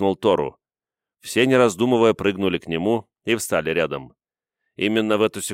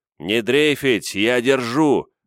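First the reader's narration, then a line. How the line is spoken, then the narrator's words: Growled. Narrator (Russian): прорычал Тору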